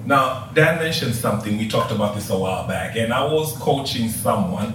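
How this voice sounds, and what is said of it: African accent. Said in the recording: “just in case you couldn't tell from the accent or anything, I'm from Africa. From Tanzania.”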